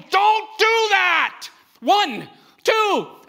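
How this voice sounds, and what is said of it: Stern parental dad voice. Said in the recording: “I'm using my dad voice, you know, that one.”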